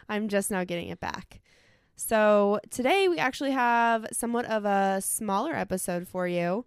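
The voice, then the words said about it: Slightly nasal, recovering voice. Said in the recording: “I lost my voice. You might hear me sound a little nasally ... still”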